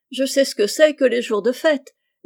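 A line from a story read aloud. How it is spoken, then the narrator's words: Laughing. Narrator (French): dit Rose en riant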